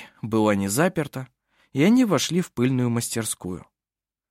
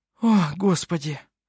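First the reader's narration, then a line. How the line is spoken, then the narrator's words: Relieved sigh. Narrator (Russian): С облегчением вздохнула она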